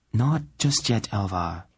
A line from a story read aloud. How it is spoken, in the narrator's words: she replied calmly